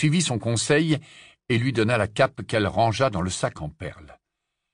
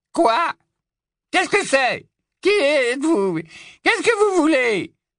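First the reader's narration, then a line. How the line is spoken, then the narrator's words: High-pitched, grumpy cry. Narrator (French): s'écria-t-il d'une voix haut-perchée, grincheuse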